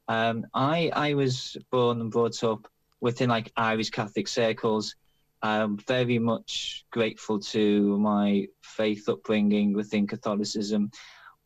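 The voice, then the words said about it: Liverpool Irish accent. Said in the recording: “as you might be able to tell from the accent, I'm Liverpool Irish. I left Liverpool 30 years ago, though the accent is still there.”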